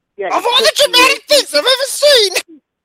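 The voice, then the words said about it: Imitates another person's voice. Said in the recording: “That's my Suzyn Waldman impression.”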